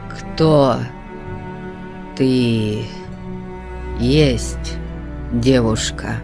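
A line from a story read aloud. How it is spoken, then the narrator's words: Slow, stammering. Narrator (Russian): спросил он, медленно запинаясь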